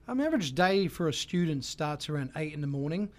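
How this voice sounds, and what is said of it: New Zealand accent. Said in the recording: “I love your accent. Where are you from? ... I'm from New Zealand.”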